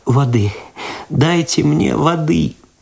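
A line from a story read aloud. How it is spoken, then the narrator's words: Moaning. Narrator (Russian): простонала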